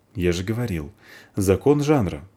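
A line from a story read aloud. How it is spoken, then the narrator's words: Calm reply. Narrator (Russian): спокойно отвечает Полчик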